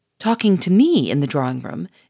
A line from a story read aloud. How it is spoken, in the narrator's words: exclaimed Gouchard